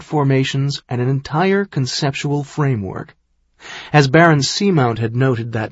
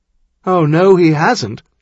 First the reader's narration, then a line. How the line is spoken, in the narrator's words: Caleb said with a chuckle